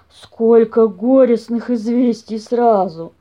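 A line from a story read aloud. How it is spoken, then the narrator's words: Sighing. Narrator (Russian): вздохнул папаша Бамсе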